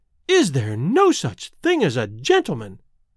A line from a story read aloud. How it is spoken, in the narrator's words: she gasped